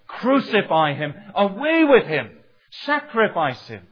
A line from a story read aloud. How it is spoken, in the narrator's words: these men who cried concerning Jesus